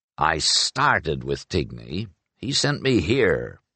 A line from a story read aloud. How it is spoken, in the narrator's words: growled the Grey Jay, sounding frustrated